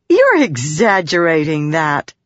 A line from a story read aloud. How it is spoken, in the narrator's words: Shallan said, though she couldn't help laughing